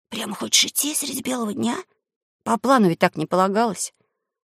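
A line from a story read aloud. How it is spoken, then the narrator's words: Whisper. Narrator (Russian): шепнул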